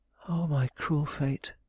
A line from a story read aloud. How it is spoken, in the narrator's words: she murmured